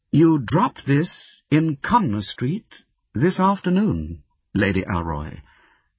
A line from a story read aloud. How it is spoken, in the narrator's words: I said very calmly